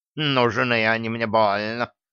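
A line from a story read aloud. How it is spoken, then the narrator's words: Offended grumbling. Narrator (Russian): пробурчал жутко разобиженный на мыши кот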